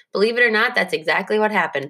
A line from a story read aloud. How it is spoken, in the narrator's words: Pops said